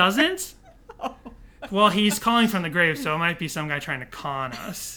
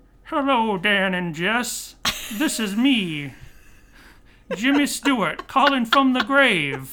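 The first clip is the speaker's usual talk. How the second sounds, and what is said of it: Poor Jimmy Stewart impression. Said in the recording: “That does not sound anything like Jimmy Stewart. ... a Jimmy Stewart impression”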